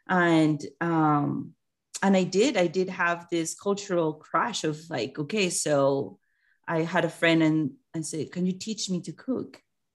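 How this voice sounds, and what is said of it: Foreign accent. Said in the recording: “you're obviously from your accent, you're not from here”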